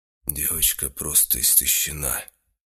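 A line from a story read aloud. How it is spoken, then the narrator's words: Muffled male voice. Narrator (Russian): глухо сказал мужчина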